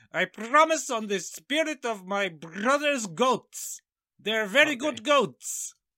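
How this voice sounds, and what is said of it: Borat-style put-on accent. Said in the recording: “I'll do the voice. ... it's a bit of a Borat moment. ... Oh, it's awful. It's awful”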